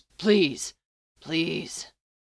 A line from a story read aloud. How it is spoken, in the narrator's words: Castiel gasps